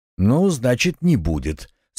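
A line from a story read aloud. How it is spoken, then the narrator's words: Calm reply. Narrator (Russian): спокойно ответил Оренгил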